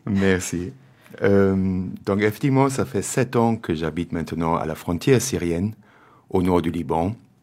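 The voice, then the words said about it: German accent in French. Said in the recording (Dutch): “mon accent teutonique ... je suis d'origine allemande”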